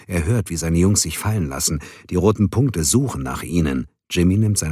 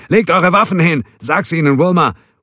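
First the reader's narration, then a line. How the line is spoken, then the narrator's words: Roaring command in Spanish. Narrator (German): brüllt die Aufforderung auf Spanisch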